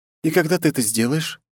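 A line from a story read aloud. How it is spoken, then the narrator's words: Sighing. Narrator (Russian): Я снова вздохнул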